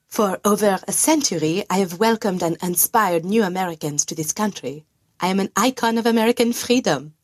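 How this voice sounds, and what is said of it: Very thick French accent. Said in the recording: “she answers in English with a very thick French accent”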